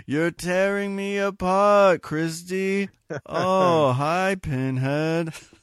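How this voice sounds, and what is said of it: Tommy Wiseau impression. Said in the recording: “my best Tommy Wiseau voice”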